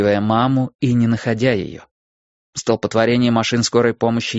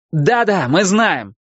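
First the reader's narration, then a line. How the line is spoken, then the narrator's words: Male shouted reply. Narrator (Russian): крикнул он в ответ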